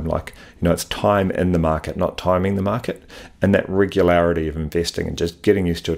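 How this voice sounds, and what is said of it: New Zealand accent. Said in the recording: “I love hearing the word pathetic with a Kiwi accent.”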